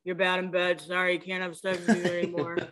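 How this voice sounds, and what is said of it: Impression of Jay Cutler. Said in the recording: “dopey-ass Jay Cutler being like ... However the fuck he talks. ... Is that a good Jay impression”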